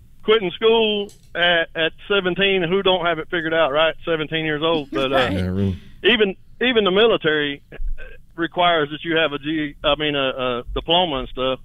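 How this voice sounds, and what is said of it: Thick Southern American accent. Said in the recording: “I have a lot of Southern accent. It's hard to understand me.”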